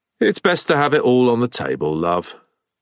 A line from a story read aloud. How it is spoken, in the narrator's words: Dudley sighed